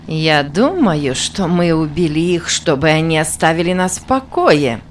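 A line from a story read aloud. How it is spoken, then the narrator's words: Mocking. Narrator (Russian): насмешливо сказала Минтака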